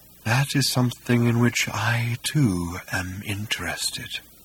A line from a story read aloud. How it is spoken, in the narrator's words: breathed Hakdar